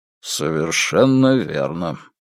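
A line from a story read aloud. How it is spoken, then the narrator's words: Gloomy agreement. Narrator (Russian): мрачно согласился капитан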